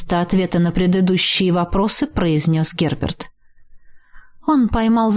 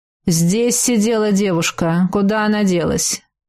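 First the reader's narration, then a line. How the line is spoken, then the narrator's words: Flirtatious purr, waitress. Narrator (Russian): Официантка кокетливо улыбнулась, промурлыкала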